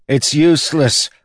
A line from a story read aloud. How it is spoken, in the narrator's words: one of the lads cried